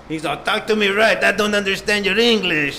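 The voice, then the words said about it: Put-on Russian accent. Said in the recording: “the Russian accent”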